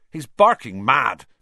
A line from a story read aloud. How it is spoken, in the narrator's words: said Seamus Finnegan angrily to Percy